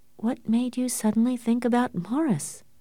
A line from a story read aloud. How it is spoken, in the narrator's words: she asked in a trembling voice